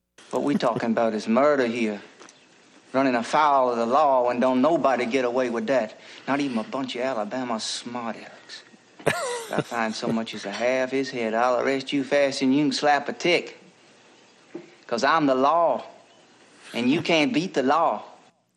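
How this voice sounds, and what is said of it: Musical Southern American accent. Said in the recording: “I love his accent. ... I love the Southern voice. ... it's the music of it. And, boy, he is musical.”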